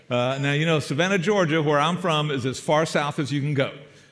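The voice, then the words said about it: South Georgia accent. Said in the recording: “This is not an impediment. This is a South Georgia accent ... this is just the way we talk”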